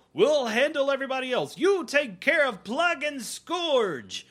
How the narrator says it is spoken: They yell

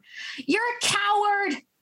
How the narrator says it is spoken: I shout to Jane's disappearing form

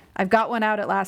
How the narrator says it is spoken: said I

